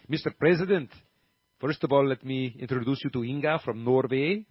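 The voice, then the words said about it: Put-on Norwegian accent. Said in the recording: “that's not a very good Norway. Norwegian should be more like this ... this is better ... that's not going to change the accent I do, because Norway and Sweden, they all kind of sound the same”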